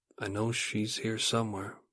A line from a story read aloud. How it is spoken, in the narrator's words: He meekly says